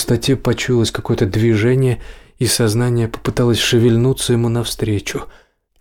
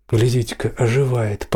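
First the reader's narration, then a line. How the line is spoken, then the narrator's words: Hoarse voice close by. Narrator (Russian): послышался совсем рядом другой голос, сиплый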